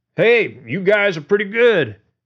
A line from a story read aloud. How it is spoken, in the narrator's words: George said loudly to the back of a long-haired head, a sour taste in his mouth from the lie